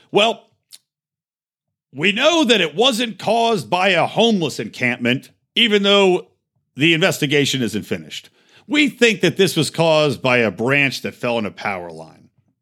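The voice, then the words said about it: Poor impression of Mayor Garcetti. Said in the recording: “that's not a very good Garcetti impression”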